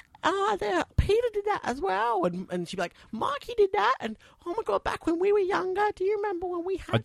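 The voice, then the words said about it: Imitates a parent's voice. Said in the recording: “Neither of our parents say, oh, my God. And neither of them sound like that ... Impersonations.”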